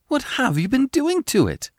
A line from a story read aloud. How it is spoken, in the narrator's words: exclaimed